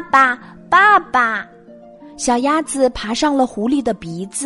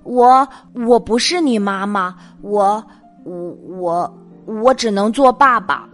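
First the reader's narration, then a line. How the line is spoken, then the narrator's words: Frightened stammering. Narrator (Chinese): 狐狸吓呆了，结结巴巴的说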